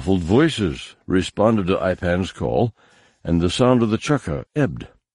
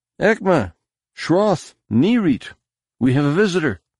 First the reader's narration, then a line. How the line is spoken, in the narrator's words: he suddenly called out